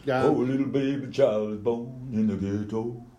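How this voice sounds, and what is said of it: Sung impression of a famous singer. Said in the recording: “Some sort of Elvis rendition or something. But it sounds like Buddy Pavarotti”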